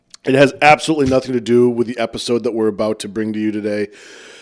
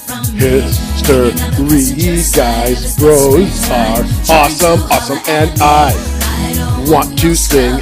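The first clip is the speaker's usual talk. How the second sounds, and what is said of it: Imitates another person's voice, sung. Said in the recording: “my best Jason Hatfield impersonation ... he loves singing a little TLC, No Scrubs”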